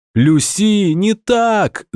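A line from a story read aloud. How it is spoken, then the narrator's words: Loud yell. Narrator (Russian): заорала Марина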